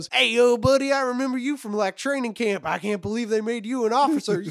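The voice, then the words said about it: Exaggerated silly country accent. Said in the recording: “in the stupidest country accent ever”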